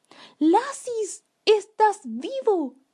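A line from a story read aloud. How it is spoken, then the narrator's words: Parents exclaiming. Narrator (Spanish): exclamaron sus padres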